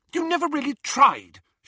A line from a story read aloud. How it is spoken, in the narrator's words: she said hotly